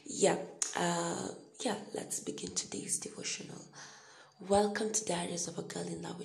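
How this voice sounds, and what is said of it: Quiet, slightly hoarse voice. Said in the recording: “this is not normally how I talk... I'm really trying not to wake up people... my voice is still a little hoarse... I won't be as loud as I am normally”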